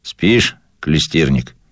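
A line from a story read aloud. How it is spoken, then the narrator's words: Calm, without mockery. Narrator (Russian): спросил он меня спокойно, без насмешки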